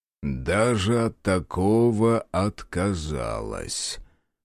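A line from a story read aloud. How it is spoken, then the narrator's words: Drawled. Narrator (Russian): протянул глава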